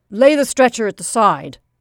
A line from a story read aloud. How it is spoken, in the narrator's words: snapped the manager